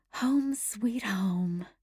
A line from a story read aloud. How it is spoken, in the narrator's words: Anne whispered to herself